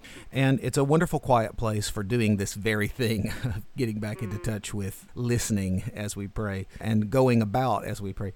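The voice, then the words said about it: Southern drawl accent. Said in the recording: “my southern drawl might make it difficult for people to understand what I said”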